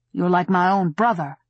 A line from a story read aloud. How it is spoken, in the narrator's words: he said thickly